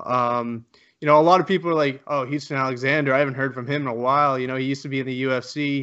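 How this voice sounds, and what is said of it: Canadian accent. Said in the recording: “I heard your Canadian accent.”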